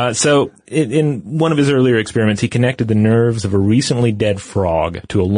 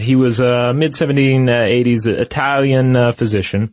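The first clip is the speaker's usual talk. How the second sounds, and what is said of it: Word said in Italian accent. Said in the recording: “you said Italian with an Italian accent”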